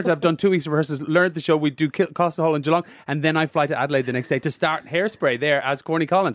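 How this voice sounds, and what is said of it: Lilting Irish accent. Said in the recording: “my lilting Irish accent”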